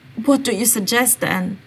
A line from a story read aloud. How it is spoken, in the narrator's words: Sirius asked, sighing and feeling the guilt arise